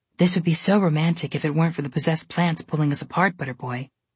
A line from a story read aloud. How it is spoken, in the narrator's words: Trobella whispered dreamily into Connor's ear